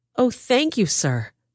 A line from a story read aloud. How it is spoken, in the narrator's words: she exclaimed